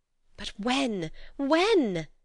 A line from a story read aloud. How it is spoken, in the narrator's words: Edna cried impatiently